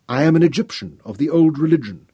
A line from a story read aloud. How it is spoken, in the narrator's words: Royan replied